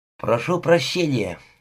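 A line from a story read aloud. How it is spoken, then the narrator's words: Mumbled. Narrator (Russian): пробормотал он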